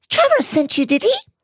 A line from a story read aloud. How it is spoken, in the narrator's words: squeaked Hermione